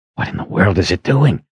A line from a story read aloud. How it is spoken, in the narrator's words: Richard whispered